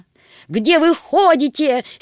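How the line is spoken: Angry exclamation. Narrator (Russian): сердито воскликнула соседка

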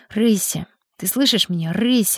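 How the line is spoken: Muttering. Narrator (Russian): бормотал Сергей

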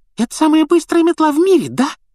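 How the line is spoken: Squeaky boy's voice. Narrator (Russian): пропищал парнишка младший Гарри

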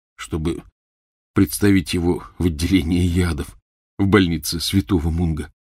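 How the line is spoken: Quiet mutter. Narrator (Russian): тихонько пробормотал Рон

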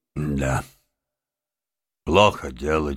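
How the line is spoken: Heavy sigh. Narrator (Russian): тяжело вздохнул мистер Крейси

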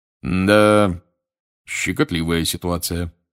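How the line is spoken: Gloomy remark. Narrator (Russian): мрачно заметил мистер Дигори

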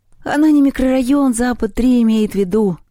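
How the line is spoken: Sigh. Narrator (Russian): вздохнул Севка

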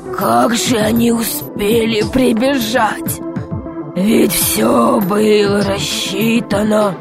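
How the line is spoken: Desperate muttering. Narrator (Russian): бормотал он в отчаянии

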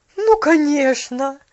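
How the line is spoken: Exclamation. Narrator (Russian): воскликнула миссис Керри

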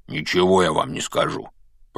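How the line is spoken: Grumbling. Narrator (Russian): пробурчал Хагрид

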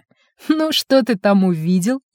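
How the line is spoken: Snide question. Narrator (Russian): ехидно спросил Гусев

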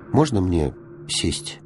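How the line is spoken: Timid question, small child. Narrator (Russian): робко спросил маленький принц

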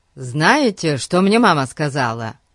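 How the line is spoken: Joyful announcement. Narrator (Russian): Радостно сообщил он

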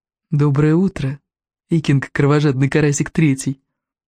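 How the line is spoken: Affectionate purr. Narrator (Russian): Ласково промурлыкал Элвин Вероломный

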